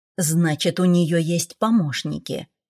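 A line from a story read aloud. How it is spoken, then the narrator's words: Humbled grumble. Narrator (Russian): буркнул Седрик, сняв, наконец, с себя былую заносчивость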